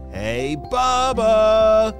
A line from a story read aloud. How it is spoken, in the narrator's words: shouted Julia